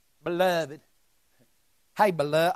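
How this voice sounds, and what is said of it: Put-on Alabama-style Southern accent. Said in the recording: “That's just a new accent. ... I sound like, what's that guy from Alabama?”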